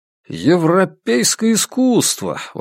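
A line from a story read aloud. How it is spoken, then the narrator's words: Exclamation. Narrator (Russian): воскликнул Вандерберг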